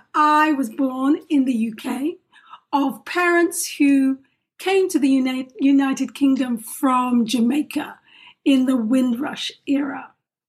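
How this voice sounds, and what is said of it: Non-American accent. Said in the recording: “As you can probably detect, my voice is not of that space which we call the United States of America.”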